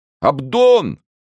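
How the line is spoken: Shout. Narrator (Russian): закричал Планше в окно

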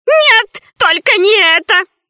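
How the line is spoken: Old man shouting. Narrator (Russian): закричал старичок

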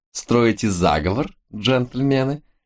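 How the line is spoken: Ringing laughing girl. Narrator (Russian): Заливисто рассмеялась девица

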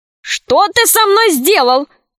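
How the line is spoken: Shouting. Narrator (Russian): закричал король

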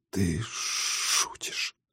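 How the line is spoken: Barely audible. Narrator (Russian): тихо, едва слышно выговорил он

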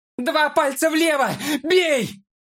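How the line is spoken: Yelling at full strength. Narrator (Russian): Что есть мочи, заорал Фолка

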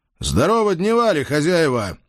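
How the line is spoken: Loud greeting. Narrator (Russian): громко поприветствовал я честную публику

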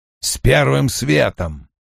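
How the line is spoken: Growled. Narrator (Russian): прорычал Доман

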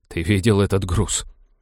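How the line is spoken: Groaning. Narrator (Russian): Простонал Роджер

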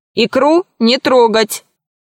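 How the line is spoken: Stern mother's warning. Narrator (Russian): строго предупредила мама

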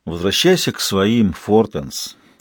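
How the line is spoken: Sigh. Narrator (Russian): Бартл вздохнул

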